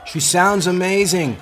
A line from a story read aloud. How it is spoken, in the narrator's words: called out over the music